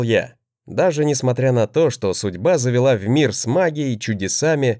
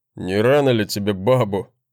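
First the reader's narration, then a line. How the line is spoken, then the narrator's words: Scoffing brother. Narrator (Russian): хмыкнул брат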